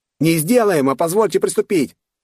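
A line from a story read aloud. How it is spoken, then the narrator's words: Barked with a grimace. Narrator (Russian): рявкнул тот, кривясь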